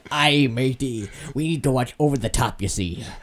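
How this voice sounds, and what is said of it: Put-on pirate accent. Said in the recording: “I gave him a pirate's accent”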